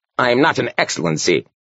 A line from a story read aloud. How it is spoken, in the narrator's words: snapped the priest